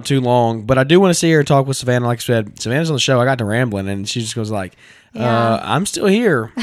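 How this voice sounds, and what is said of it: Raspy, strained voice. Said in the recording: “My voice is not going to hold up as long as I thought it would ... It's getting raspier by the second”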